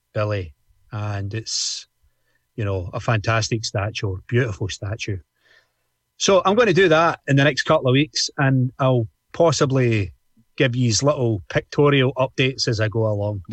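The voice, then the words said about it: Glaswegian Scottish accent. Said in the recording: “my Glaswegian accent”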